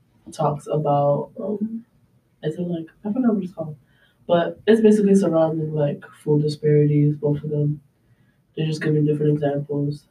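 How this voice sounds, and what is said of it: Hoarse, weak voice from illness. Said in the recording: “my voice is gone. I'm so sick.”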